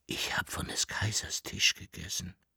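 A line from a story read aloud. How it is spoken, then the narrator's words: Whispering. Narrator (German): flüsterte er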